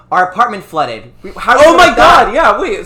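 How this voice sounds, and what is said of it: Yelling. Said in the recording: “I'm yelling.”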